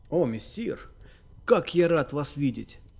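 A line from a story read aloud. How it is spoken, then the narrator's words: Exclaiming. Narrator (Russian): воскликнул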